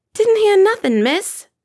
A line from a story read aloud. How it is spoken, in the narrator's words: she shouted back